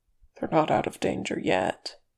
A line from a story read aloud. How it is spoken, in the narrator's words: his nephew murmured seriously